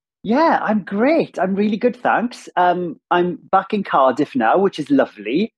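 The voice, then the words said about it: Strong Welsh accent. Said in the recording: “to hear a fellow Welsh accent as well ... also nice to get a Welsh accent on back again. It's such a strong one”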